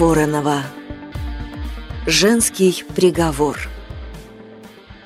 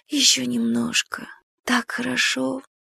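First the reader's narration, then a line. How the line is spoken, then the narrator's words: Whisper. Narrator (Russian): прошептала Ирина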